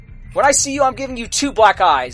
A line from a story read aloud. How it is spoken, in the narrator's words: Darren yelled out